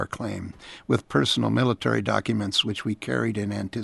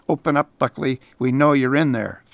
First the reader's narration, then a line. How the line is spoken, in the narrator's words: vets shouted while pounding on the door